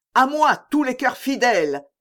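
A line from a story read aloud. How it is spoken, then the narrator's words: Shouted. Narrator (French): cria de Winter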